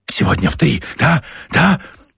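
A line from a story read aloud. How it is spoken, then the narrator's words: Hissing whisper. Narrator (Russian): со свистом прошептал Поль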